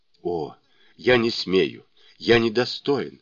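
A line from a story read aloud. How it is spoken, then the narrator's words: Mutter. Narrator (Russian): бормотал он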